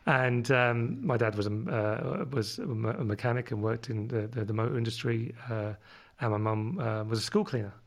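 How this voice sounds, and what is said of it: London accent. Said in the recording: “my London accent comes from living over in London where I was born”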